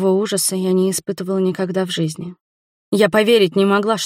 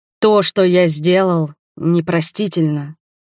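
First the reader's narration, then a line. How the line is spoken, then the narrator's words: Dull muffled voice. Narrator (Russian): глухо продолжал он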